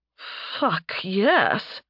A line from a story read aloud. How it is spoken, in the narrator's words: she gasped out